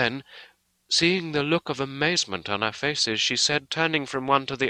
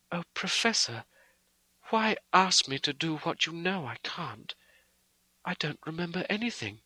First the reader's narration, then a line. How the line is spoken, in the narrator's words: she said sweetly and seemingly with the utmost concern